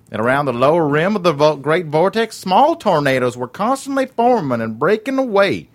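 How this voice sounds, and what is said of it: Put-on Southern accent. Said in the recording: “that accent ... the Southern accent ... That was really good. ... way more entertaining with the accent ... we lampooned him with that accent”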